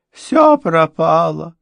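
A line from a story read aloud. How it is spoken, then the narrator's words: Sobbing. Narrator (Russian): рыдала она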